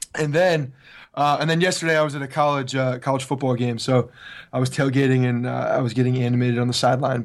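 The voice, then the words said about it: Hoarse, strained, nearly lost voice. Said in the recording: “the Yankees played like your voice sounds ... my voice is probably gone from yelling at college football”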